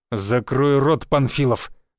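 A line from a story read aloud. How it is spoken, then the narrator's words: Burly man barking. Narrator (Russian): Рявкнул бритоголовый с крепкой мускулатурой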